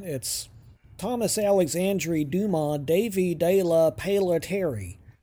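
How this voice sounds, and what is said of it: American-accented French name. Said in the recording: “In my American accent,”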